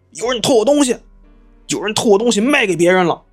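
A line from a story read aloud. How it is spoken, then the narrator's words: Shouting. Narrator (Chinese): 大喊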